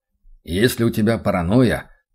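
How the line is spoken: Muttered, retired man. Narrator (Russian): пробурчал отставник

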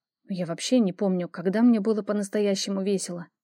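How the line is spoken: Muttering. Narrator (Russian): пробормотала я

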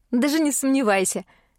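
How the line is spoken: Chuckling. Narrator (Russian): хохотнула я

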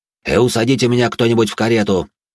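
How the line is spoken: Irritated. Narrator (Russian): раздраженно произнес он

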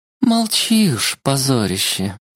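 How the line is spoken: Heavy sigh. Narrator (Russian): тяжко вздохнула Кайлана

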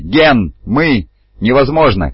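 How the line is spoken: Shouting. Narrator (Russian): кричал Лон

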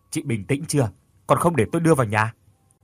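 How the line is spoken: Shouted. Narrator (Vietnamese): Thành quát lên

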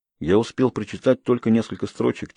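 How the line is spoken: Quiet reply. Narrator (Russian): тихо отвечаю я

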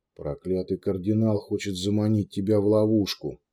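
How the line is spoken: Fat man muttering. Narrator (Russian): Толстяк пробурчал

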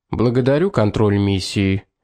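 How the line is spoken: Formal tone. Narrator (Russian): официальным тоном ответил командир Льюис

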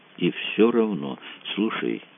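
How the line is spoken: Said softly. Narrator (Russian): мягко сказал Кацуба

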